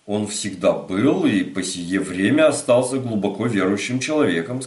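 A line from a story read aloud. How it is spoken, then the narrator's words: Plain. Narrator (Russian): сказала маркиза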